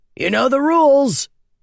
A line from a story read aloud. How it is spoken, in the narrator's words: he bellowed